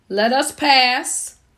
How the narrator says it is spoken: called out

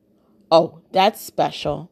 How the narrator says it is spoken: Nevin said sarcastically

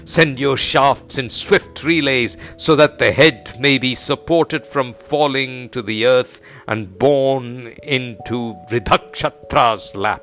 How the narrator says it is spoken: cried Krishna

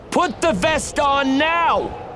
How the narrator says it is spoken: Gela shouted

